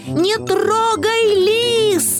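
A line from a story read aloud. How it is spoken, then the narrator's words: Screaming at full volume. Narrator (Russian): завопил он, что было мочи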